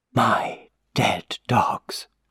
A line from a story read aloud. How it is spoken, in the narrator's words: she said in a whisper